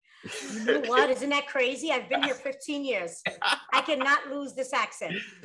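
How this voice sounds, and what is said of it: Bronx New York accent. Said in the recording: “You sound like you're from the boogie now. ... you still have your accent.”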